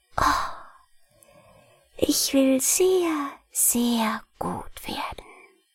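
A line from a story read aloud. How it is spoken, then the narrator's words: Boy's soft happy whisper. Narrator (German): flüsterte der Knabe mit leiser, glücklicher Stimme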